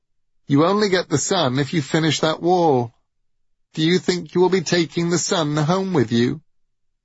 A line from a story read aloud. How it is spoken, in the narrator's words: shouted Baldur